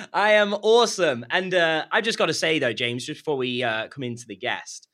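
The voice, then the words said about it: British accent. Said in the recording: “from the United Kingdom with the perfect British accent”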